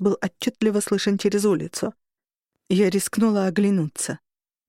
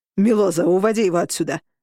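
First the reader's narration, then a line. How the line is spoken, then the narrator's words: Bark. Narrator (Russian): рявкнул Роган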